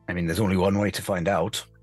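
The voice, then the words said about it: Gruff put-on character voice. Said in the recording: “my throat was about to give way with the gruff accent.”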